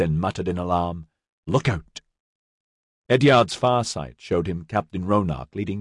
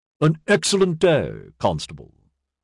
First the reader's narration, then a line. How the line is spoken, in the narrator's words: Walsfall said in his clipped, aristocratic accent